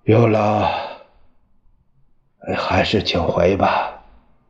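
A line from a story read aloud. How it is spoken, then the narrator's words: Breathless long sigh. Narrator (Chinese): 喘了一阵儿，他长叹一声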